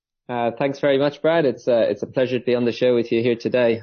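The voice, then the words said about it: Irish accent. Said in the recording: “that's not a Singaporean accent. That is an Irish accent.”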